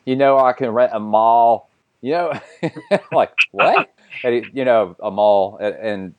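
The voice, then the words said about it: Imperfect imitated Australian accent. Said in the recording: “I'm not going to do the Australian accent correctly”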